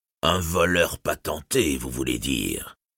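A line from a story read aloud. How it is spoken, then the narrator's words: Disdainful tone. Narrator (French): lâcha-t-il néanmoins d'un ton dédaigneux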